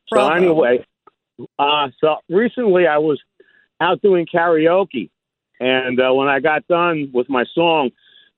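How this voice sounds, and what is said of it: Out of breath. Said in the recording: “I'm a little out of breath. I'm multitasking.”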